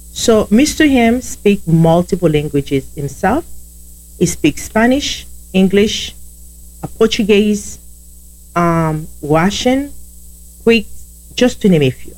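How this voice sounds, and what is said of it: Heavy Haitian Creole accent. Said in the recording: “I have a heavy accent. That means I speak Haitian Creole”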